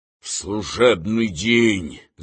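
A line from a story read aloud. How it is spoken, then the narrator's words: Angry. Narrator (Russian): злобно заговорил Римский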